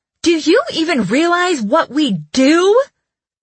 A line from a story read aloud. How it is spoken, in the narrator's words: I yelled